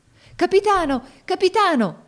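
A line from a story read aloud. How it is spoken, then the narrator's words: Many voices shouting together. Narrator (Italian): gridarono tutti insieme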